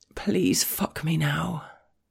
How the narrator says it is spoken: murmur

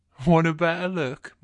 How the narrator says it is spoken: says, chuckling

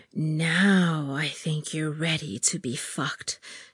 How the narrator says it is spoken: she growled

